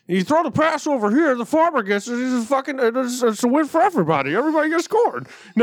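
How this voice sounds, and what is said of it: Imitates another person's voice, badly. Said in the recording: “that's a terrible impression.”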